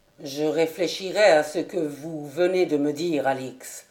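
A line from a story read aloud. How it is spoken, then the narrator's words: Grave tone. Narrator (French): dit Ravenswood d'un ton grave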